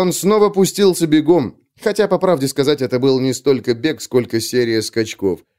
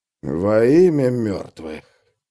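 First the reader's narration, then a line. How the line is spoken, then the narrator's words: Mutter. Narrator (Russian): пробормотал он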